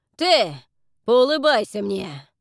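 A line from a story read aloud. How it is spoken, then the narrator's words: Growling. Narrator (Russian): рычал Фрэнк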